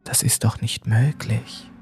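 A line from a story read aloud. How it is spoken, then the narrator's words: Whispering. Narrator (German): flüsterte er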